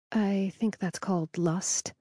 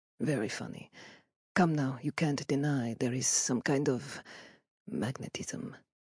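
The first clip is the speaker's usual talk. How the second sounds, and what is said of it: Mixed European put-on accent. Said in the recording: “His accent is a musical mashup of nationalities.”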